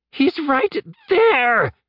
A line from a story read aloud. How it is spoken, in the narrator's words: Colt shouted